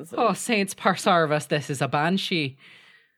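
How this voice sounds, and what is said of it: Put-on Irish accent, fairly good. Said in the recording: “our Irish listeners... That's probably one of the best accents you've done... Oh, that was pretty good.”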